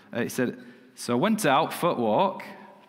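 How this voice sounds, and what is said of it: Imitates a Macclesfield man's accent. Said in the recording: “I'll do my best accent here”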